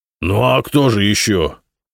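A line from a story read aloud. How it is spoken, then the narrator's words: Angry. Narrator (Russian): сердито ответил Кузьма Петрович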